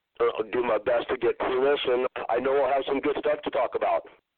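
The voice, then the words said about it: Hoarse, worn-out voice. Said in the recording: “my voice is shot ... my voice is shot”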